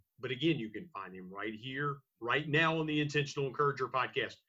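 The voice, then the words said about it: Radio announcer voice. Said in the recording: “your radio announcer voice is fantastic ... Your pipes are sounding pretty clean”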